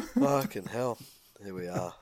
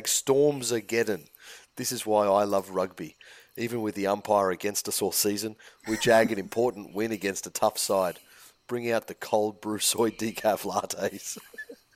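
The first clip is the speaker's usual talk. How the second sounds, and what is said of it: Impersonates a rugby fan. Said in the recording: “it was a bang on. It was a bang on impersonation”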